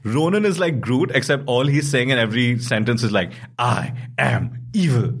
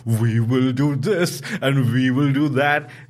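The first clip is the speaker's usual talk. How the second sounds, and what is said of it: Imitation of Ronan's villain voice. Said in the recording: “every line Ronan says in that stupid Ronan accent”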